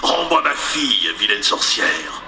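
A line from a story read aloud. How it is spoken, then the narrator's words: Thundering growl. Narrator (French): gronda-t-il de sa voix tonitruante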